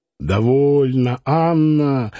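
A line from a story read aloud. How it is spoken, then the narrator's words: Grumbling. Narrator (Russian): ворчал доктор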